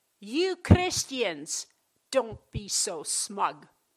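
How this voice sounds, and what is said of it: Put-on Dutch accent. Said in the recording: “I'll try it in her Dutch accent.”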